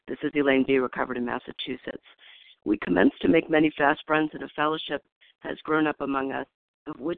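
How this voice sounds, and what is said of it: Hoarse, strained voice. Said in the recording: “Please forgive my voice. I'm getting over laryngitis,”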